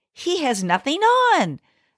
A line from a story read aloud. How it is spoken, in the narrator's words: shouted all the people at last